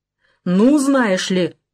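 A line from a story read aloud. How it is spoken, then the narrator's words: Cry turning deep-voiced. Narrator (Russian): вскрикнула Жмурова, и голос у нее стал басовитым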